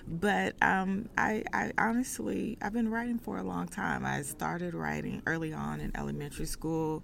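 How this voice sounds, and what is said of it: Texan Southern accent. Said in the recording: “If you can tell from the accent, I am from Texas. I'm a Southern girl.”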